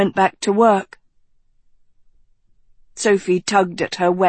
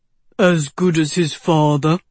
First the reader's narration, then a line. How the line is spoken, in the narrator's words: the dwarf said in a basso voice